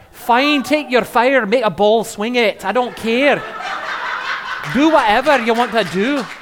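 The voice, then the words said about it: Put-on Scottish accent. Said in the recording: “What the ladies in Scotland do ... that lousy accent”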